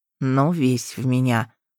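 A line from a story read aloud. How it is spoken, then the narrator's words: Muttering. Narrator (Russian): пробормотал он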